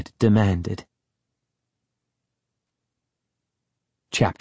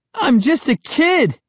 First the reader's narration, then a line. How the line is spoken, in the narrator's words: I cried